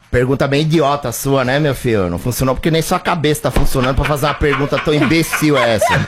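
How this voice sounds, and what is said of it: Imitates another person's voice. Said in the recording (Portuguese): “ele gosta bastante quando eu faço o Muricy... ele pede o Muricy”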